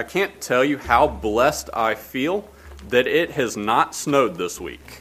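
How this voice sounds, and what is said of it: Alabama Southern US accent. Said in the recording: “I'm from Alabama, if you are guests with us, if you can't tell by this accent.”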